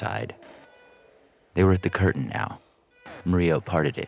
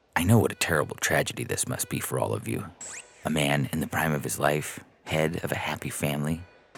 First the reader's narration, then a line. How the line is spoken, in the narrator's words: He said gravely